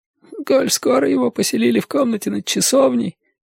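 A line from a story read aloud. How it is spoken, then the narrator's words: Mutter. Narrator (Russian): пробормотал он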